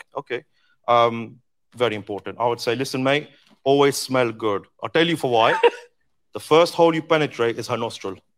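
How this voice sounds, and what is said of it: Mixed Australian and Indian accent. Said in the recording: “He has such an interesting accent... It's like Australian and Indian at the same time.”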